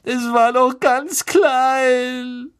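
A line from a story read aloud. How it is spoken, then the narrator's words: Sobbing. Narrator (German): schluchzte Lavender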